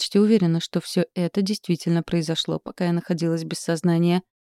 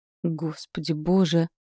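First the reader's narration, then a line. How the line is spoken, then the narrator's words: Mumbling. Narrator (Russian): снова пробормотала она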